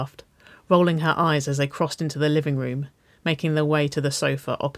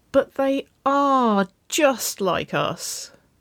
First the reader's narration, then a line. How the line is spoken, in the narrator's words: Nicole whined